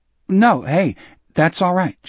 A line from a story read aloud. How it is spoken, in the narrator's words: said nervously